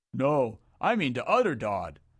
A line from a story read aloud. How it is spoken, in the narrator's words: roared the creature, agitated